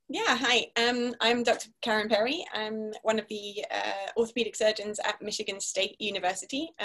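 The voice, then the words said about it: Non-American, Scottish accent. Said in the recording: “as you can probably tell from the silly accent, not originally from the States. So I did all my training in Scotland, in the UK”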